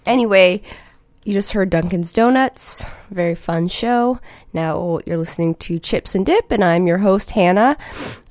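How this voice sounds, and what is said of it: Scratchy voice from illness. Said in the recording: “I'm a little sick this week, so I might sound even weirder than I usually do... my voice is a little scratchy today.”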